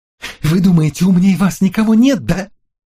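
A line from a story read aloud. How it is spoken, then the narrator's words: Breathless hateful scream. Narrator (Russian): закричала она, задыхаясь от ненависти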